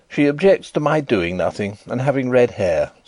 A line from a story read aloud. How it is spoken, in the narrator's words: said I, in an injured tone